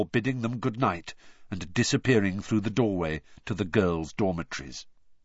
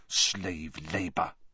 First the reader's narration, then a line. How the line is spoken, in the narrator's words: Harry distinctly heard her mutter